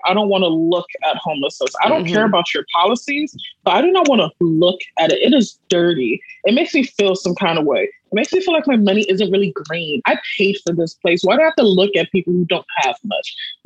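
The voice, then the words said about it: California Valley Girl accent. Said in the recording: “I had to put on a little California Valley Girl accent.”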